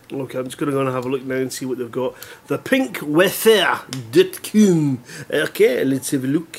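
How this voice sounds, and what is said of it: Put-on French accent. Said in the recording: “I don't know why I'm speaking in a French accent”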